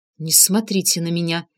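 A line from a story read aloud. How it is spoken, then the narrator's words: Through gritted teeth. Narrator (Russian): сквозь зубы процедила Инга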